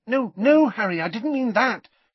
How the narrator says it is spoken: she said hastily

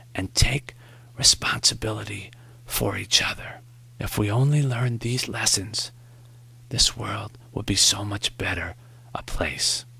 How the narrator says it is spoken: Morrie whispered

